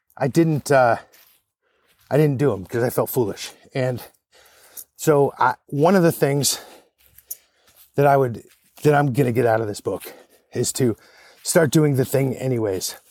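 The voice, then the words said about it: Out of breath. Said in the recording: “Everybody's wondering why I'm so out of breath... I'm hiking uphill.”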